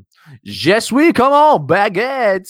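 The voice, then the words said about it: Exaggerated mock French accent. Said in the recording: “It's hard to do this voice with the accent,... Oh, I think I'm getting better at that.”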